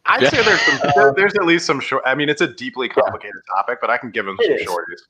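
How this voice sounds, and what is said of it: Soothing deep baritone radio voice. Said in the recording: “my soothing radio voice... It is this beautiful baritone.”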